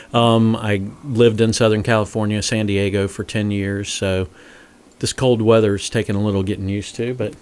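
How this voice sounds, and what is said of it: Southern American accent. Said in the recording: “I'm originally from Florida, so that's the Southern accent.”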